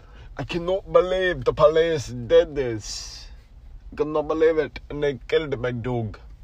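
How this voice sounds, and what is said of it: Bad put-on British-Nigerian accent. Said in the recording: “half British and half like Nigerian ... That was a terrible accent”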